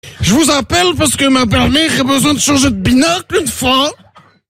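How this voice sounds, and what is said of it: Exaggerated put-on Belgian French accent. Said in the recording (French): “j'ai le petit accent belge une fois”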